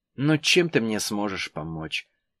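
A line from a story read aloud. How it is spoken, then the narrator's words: Sigh. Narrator (Russian): вздохнула Погорельцева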